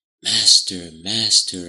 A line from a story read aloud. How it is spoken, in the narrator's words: I sing quietly